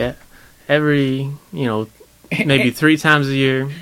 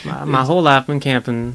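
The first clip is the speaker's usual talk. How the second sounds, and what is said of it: Put-on Southern accent. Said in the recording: “Get a quick Southern accent there. Pick that up.”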